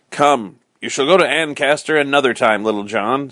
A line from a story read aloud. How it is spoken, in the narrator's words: said Robin